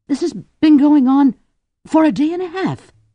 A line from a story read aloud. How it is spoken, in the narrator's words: Alice blurted